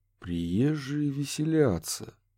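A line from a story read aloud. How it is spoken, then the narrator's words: Slow repetition. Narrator (Russian): медленно повторил Курт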